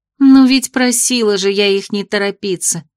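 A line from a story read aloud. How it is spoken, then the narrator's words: Sighing. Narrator (Russian): вздохнула Веся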